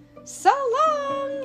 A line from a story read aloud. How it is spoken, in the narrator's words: he shouted